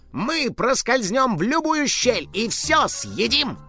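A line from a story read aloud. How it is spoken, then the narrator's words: Cheerful. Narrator (Russian): Добавил весело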